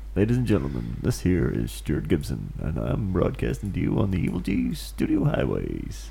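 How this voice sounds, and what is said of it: Deep, sexy radio voice. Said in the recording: “entertain you with my deep, sexy voice.”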